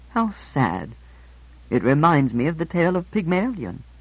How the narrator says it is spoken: murmured

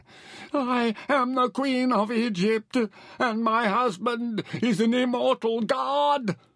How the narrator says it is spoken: Heseret screamed

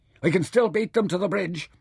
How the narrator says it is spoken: he shouted in the wind

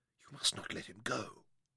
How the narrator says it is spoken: Sarah told Tom quietly

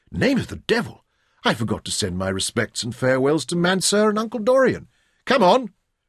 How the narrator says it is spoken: suddenly Jim exclaimed

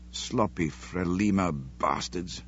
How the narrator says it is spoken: Sean muttered

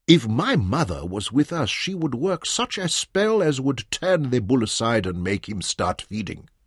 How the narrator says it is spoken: said Manyoro

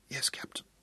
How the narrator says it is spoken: she whispered

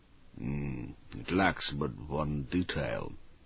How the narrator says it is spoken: he grunted

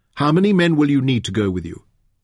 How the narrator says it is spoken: asked Tinat

